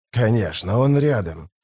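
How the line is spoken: Hissing. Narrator (Russian): прошипел главарь

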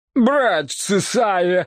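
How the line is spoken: Exclamation. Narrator (Russian): воскликнул папаша

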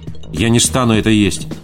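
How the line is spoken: Sharp declaration. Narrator (Russian): резко заявила Кристи

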